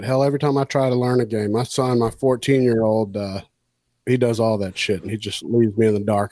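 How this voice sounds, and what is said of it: Southern US drawl. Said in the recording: “I got a southern drawl”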